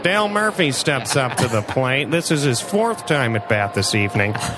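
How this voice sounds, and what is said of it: Throaty baseball announcer voice. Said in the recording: “I always want to have like a back of the throat.”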